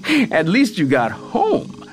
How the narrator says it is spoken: Sienna said, laughing

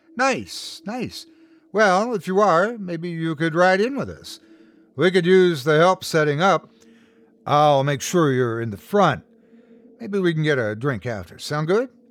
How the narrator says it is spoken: Her words slurred together a little bit

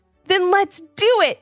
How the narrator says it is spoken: exclaimed Ivy

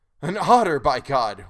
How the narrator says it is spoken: exclaimed in the same breath, laughing

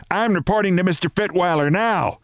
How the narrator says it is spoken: shouted

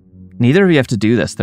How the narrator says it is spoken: Thursday said

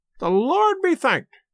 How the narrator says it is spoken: cried the old woman

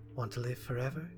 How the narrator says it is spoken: she murmured, with a wide grin

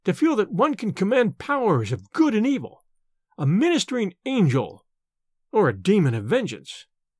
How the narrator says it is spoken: he cried

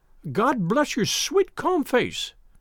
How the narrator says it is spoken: cried with an hysterical sob

